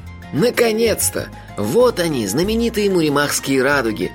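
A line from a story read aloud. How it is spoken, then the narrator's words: Delighted sigh. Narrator (Russian): восхищенно вздохнул магистр Моти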